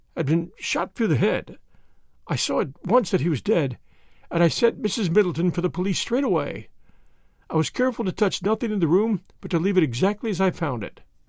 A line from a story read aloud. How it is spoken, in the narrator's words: her voice faltered